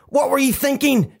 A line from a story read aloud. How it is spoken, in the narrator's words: She barked